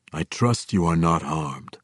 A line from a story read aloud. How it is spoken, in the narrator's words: he said in a deep and resonant voice, and an accent that, like his fine clothing, spoke of culture and sophistication